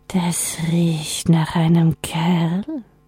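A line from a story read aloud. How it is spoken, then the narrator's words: Icy whisper, very close. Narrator (German): flüsterte die Eisesstimme ganz nah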